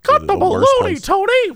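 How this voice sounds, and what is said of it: Mickey Mouse character voice. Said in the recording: “What was that voice? ... Mickey, what happened to you?”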